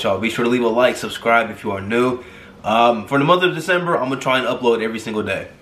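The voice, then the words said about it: Congested voice. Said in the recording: “I sound a little congested. ... My allergies are kind of kicking my butt right now”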